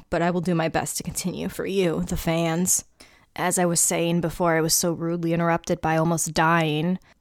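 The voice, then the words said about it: Waterlogged voice after choking. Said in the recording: “I swallowed water ... it went down my windpipe ... my voice is, I'm like, you know, waterlogged now”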